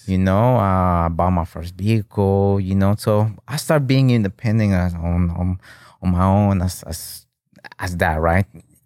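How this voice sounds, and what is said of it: Speaks with a foreign accent. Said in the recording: “I still have some, like my accent ... I have the still accent”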